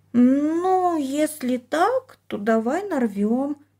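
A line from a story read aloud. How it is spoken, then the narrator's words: Uncertain drawl. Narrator (Russian): неуверенно протянула она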